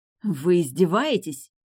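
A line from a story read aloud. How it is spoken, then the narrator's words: Hissing. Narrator (Russian): Эйлин зашипела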